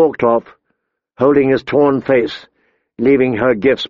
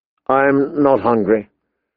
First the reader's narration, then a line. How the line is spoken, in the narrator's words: Danny said sadly